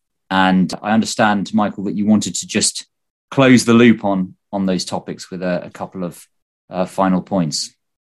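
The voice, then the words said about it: British accent. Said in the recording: “a guy with a British accent”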